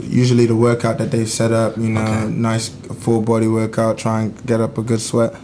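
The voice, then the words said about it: Blended Texan and English accent. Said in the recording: “it's mixed because I mean Texas has such a strong accent ... slang and like a draw ... it got blended ... my accent from over here kind of like just creeps back out”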